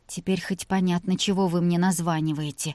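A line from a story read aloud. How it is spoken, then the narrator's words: Quiet. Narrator (Russian): негромко произнесла она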